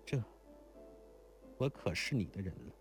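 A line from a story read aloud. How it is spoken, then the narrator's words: Sad sigh. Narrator (Chinese): 如莲才凄然叹道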